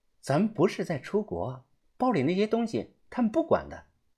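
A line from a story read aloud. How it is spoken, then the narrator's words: Soft reassurance. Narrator (Chinese): 小声的安慰着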